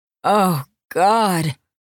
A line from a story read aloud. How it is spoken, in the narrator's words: She moaned with each hard glide of his cock into her quivering flesh